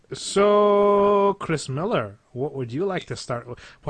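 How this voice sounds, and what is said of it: Put-on Scottish accent. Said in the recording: “Why do I go into a Scottish accent when I say your name?”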